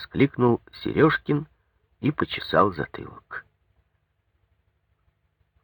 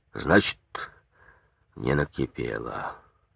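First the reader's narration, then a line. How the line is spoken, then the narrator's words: Gloomy bass. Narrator (Russian): снова угрюмо пробасил Ипатов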